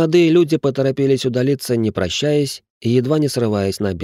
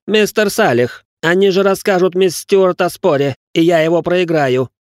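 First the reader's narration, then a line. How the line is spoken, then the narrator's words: Sudden loud shout. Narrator (Russian): Неожиданно громко прокричал Ричард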